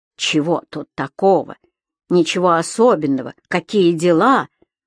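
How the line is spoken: Angry mocking mimicry. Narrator (Russian): зло передразнивала племянника Ирина

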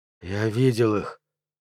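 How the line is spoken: Strained, forced out. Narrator (Russian): С трудом выдавил из себя

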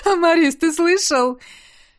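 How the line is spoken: Speaking through laughter. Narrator (Russian): проговорил сквозь смех

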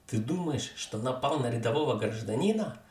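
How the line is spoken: Yelling. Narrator (Russian): орал один из них

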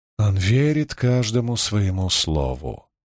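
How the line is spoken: Sighing. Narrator (Russian): вздохнула Аннаура

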